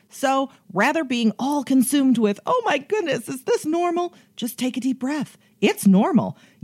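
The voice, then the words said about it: Chicago accent. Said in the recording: “I love that accent ... that Chicago accent”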